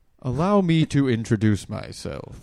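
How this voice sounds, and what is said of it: Posh refined well-educated cartoon voice. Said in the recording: “It's not British, but it's very... Posh? ... Refined. Like he's well educated.”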